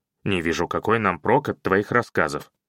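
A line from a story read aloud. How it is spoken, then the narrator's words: Grumbling. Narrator (Russian): проворчал он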